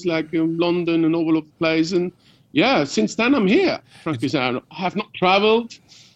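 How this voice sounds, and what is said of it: London geezer accent. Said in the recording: “20 years in London, you do sound like a geezer... Certainly doesn't sound Swiss, does he?”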